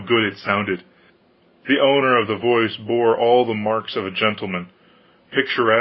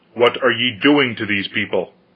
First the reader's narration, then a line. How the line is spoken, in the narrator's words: said sharply to the peasants